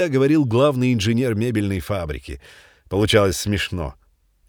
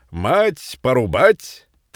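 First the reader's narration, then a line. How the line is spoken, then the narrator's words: Cheerful speech. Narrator (Russian): говорил весело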